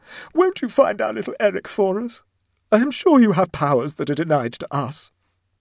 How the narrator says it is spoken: she sobbed, struck by a happy inspiration

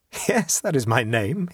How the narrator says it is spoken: he said, laughing

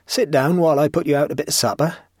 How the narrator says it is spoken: said the old man with quavering eagerness

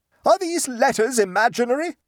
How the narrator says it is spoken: screamed Mrs

